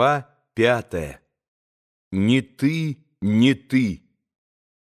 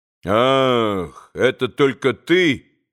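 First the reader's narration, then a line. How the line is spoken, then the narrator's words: Dry tone. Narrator (Russian): сказал сухо Иван Федорович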